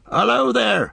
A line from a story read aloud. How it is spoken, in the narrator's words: cried Farmer Maggot